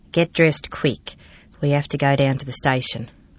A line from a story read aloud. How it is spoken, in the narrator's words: she called to me softly